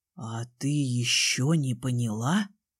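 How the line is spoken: Whisper. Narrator (Russian): прошептал он

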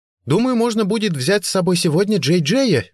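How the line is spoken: Cheerful, ringing voice. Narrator (Russian): весело и звонко проговорила Бренда

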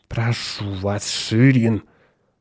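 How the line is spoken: Grumbling. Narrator (Russian): проворчал Атон

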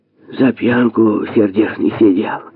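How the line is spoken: Gloating muffled sigh. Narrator (Russian): Прикрывая рот платком, злорадно вздохнула худая и вредная Клавдия

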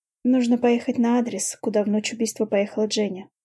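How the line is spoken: Calm, mouth full. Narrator (Russian): спокойно отвечаю я, засовывая в рот лапшу

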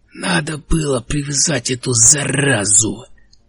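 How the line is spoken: Hoarse wheeze. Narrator (Russian): прохрипел Генри

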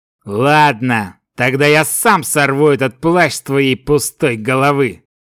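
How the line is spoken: Angry growl. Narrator (Russian): прорычал Дарган, разозленный игнорированием противника

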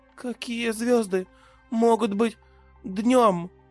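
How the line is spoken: Sleepy babble. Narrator (Russian): сонно пролепетала Тия

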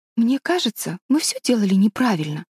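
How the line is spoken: Timid. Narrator (Russian): робко сказала Мэри Голд

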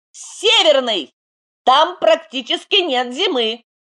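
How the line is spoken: Quick shout. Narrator (Russian): Арм тут же выкрикнул

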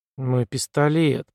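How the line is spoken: Muttered. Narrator (Russian): пробормотала Карен

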